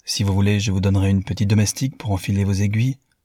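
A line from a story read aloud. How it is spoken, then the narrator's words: Cheerful. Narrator (French): dit gaiement Newman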